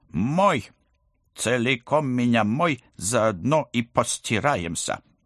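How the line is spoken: Menacing demand. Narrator (Russian): грозно потребовала

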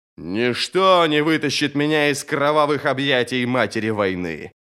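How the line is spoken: Growl. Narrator (Russian): прорычал Горм

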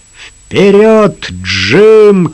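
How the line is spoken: Shouting. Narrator (Russian): крикнул Лукас

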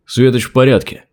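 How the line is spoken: Plain. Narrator (Russian): ответил Торбранд

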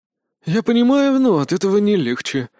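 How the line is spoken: Sigh. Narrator (Russian): вздохнул Лад

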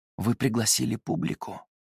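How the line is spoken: Soft whisper. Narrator (Russian): спросил он у Тамары издалека тихим шепотом над ее ухом

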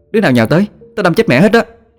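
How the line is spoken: Shouting. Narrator (Vietnamese): cô la lên

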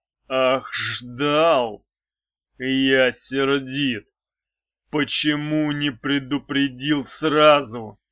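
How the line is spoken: Growled. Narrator (Russian): прорычал мечник

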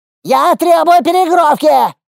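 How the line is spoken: Yelling again. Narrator (Russian): снова заорал Впрунгук

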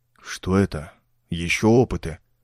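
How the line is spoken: Muttered. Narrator (Russian): пробормотал Ровертон

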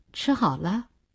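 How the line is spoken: Cold question. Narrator (Chinese): 冷冷地问

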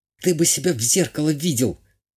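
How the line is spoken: Tense whisper. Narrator (Russian): напряженно шепнула графиня

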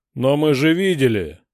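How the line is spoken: Roar. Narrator (Russian): проревел бот

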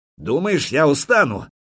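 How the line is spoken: Young prince shouting. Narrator (Russian): крикнул Черниговский княжич

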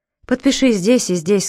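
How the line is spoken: Plain. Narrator (Russian): сказал Джером

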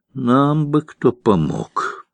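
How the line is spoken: Sighing. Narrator (Russian): вздохнул Алексей

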